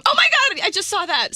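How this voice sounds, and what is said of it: Yelling loudly into microphone. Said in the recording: “I'm yelling ... stop yelling directly into the microphone”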